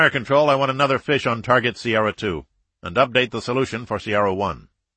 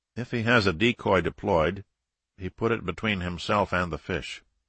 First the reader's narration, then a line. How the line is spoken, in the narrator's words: the captain said quietly